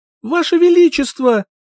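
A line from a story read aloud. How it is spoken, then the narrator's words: Shouting with all strength. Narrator (Russian): Закричала, что было сил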